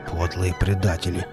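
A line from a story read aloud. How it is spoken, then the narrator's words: Grumbled. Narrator (Russian): буркнул Велес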